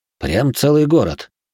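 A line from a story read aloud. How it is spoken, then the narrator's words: Snorting remark. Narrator (Russian): хмыкнул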